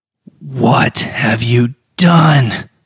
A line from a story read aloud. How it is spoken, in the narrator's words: Zendris bellowed